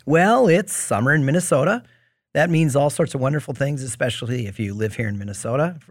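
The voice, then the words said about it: Slightly raspy voice. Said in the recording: “I have a little mold allergy, and that's given me a little bit of a raspy voice”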